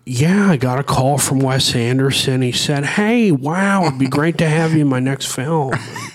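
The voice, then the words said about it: Imitates another person's voice. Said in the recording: “my really good impression? ... Owen Wilson is like, uh,”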